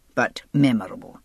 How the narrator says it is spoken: the Scot said dryly

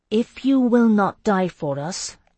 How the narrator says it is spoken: I said slowly

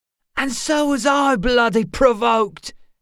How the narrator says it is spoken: he shouted

